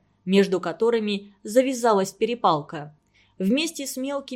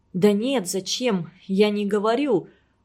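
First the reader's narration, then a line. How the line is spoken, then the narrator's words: Mumbled. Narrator (Russian): промямлил Антон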